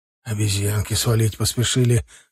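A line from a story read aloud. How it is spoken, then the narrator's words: Hoarse voice. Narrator (Russian): хриплым голосом поделился Стас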